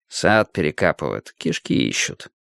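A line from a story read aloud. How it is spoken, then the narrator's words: Undertone. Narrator (Russian): вполголоса сказал Страйк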